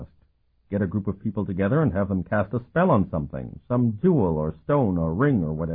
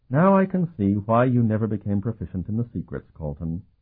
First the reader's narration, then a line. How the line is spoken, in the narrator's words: Sophronia sighed